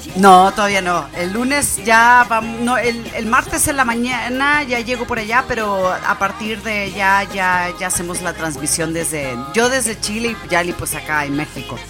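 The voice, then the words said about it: Chilean-sounding accent, lost northern Mexican accent. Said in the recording (Spanish): “acento está tan chileno? O sea, has perdido mucho el acento norteño ... estás hablando muy, no sé, como sommelier”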